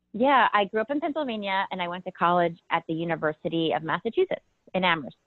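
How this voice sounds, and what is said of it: East Coast American accent. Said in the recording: “I can definitely pick up on the accent.”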